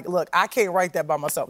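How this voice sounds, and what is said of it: Imitates another person's voice. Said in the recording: “That's a bad Aziz impersonation.”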